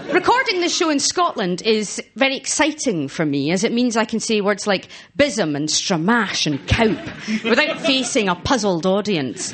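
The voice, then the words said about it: Woman's regional Scottish accent. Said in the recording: “a woman with an accent that sounded like two sparrows punching each other whilst trapped in the lid of a grand piano”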